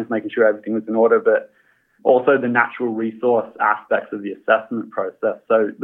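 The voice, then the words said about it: Australian accent. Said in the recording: “as you can tell by the accent, I am Australian.”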